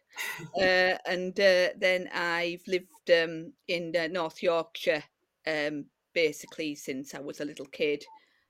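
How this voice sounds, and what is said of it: Middlesbrough English accent. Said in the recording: “I was born in Middlesbrough, uh, as you can probably tell from my accent.”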